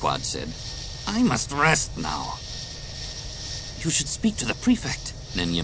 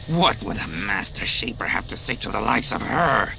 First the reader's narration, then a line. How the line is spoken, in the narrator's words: Quad sneered